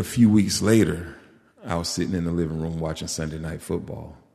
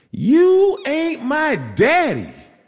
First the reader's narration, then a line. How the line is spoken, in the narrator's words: she screamed